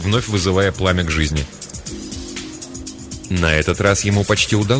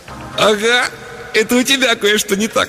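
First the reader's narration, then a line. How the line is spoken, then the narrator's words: Snorting. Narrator (Russian): фыркнул Пэт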